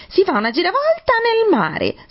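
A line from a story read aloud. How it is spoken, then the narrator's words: Wild shrieking. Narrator (Italian): strillò la finta tartaruga, facendo pazze capriole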